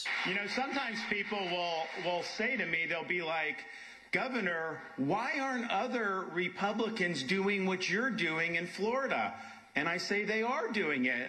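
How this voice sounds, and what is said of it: Whiny voice. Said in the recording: “this whiny voice, by the way, is really tough.”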